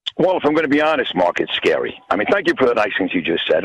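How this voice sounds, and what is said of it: New York accent. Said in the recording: “you have the New York accent”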